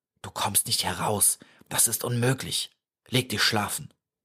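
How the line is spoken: Whispered. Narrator (German): flüsterte

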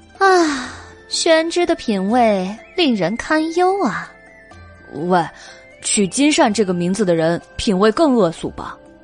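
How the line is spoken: Sighing. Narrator (Chinese): 白姬叹了一口气

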